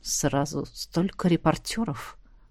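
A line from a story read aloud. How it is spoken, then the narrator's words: Grumbling. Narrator (Russian): проворчал старший из братьев Стоун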